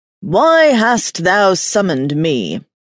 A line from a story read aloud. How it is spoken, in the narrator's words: began in a large, thunderous voice that rattled the windows